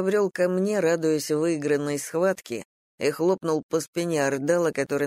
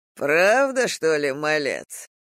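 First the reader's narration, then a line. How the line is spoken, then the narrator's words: Amused snort. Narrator (Russian): хмыкнул Кербал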